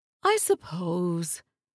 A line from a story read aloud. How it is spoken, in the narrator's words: Zarmina sighed